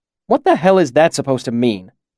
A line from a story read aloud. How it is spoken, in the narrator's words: Chronicler snapped